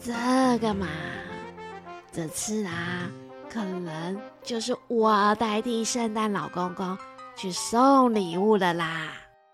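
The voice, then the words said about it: Quiet, soft voice. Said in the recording (Chinese): “圣诞老婆婆小小声地说”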